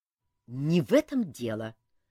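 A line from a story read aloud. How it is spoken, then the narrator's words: Irritated reply. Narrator (Russian): раздраженно отозвался Элмар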